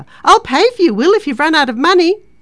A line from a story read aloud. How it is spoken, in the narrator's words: shouting over her shoulder